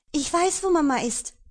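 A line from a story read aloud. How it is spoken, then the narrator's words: Excited crowing. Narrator (German): krähte sie aufgeregt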